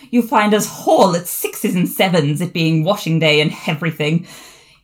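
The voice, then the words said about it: Mock-posh accent with added H's. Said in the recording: “her voice up several social classes ... the H's everywhere ... they've added H's on everything”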